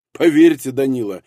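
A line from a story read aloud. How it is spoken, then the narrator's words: Laughing. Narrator (Russian): рассмеялся Ростоцкий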